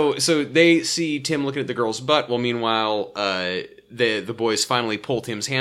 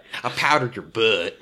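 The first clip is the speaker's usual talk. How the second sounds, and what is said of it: Fake southern-ish accent. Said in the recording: “You sounded like Jill when you said that... I'm slowly absorbing her fake southern-ish accent”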